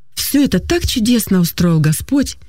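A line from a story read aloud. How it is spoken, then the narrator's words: Aunt's joyful explanation. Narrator (Russian): радостно пояснила тетя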